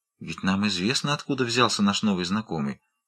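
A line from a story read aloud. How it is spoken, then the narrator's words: Low voice. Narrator (Russian): сказала вполголоса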